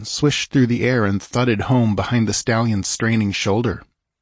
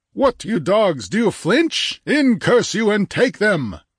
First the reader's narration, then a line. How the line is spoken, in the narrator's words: a stentorian voice roared